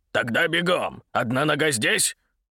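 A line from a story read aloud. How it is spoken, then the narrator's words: Barking shout. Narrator (Russian): Игнат Исаакович рявкнул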